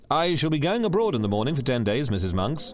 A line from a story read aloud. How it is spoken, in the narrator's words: he said